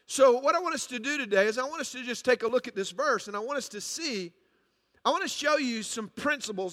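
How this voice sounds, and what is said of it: Speaker's own noticeable accent. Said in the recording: “You may have a hard time understanding this accent”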